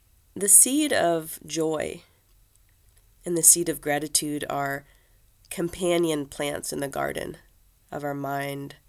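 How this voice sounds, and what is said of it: Scratchy, sick-sounding voice. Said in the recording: “Apologies for my uh, scratchy uh, voice today. ... I am currently dealing with a, a case of RSV ... I've been sick for about a week.”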